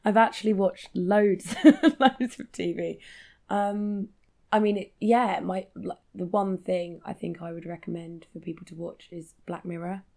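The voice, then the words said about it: Low, croaky voice. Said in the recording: “I've been really ill last week, which is why my voice is a bit low and croaky.”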